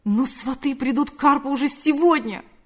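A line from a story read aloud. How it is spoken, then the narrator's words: Exclaiming. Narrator (Russian): воскликнул Павел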